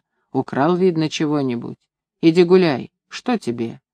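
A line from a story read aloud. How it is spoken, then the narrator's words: Calm. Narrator (Russian): она спокойно сказала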